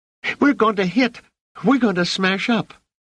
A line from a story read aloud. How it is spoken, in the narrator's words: Rach screamed